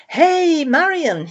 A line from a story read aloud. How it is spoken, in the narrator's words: he called out